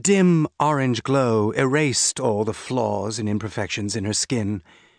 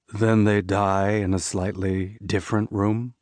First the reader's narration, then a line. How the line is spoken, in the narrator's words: Kumpar murmured